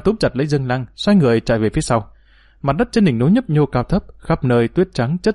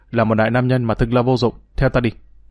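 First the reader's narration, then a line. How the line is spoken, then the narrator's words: Snapping irritably. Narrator (Vietnamese): vừa kéo tay y vừa gắt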